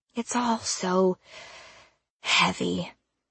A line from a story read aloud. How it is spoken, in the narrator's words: Misty sighed